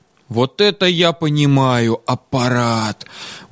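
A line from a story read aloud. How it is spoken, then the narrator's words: Admiring exhale. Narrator (Russian): Восхищенно выдохнул Витька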